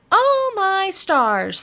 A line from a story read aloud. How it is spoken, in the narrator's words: squealed Roly Pig